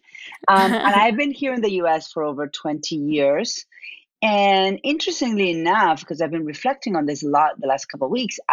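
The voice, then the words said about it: Argentine-accented English. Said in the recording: “My accent is from Argentina.”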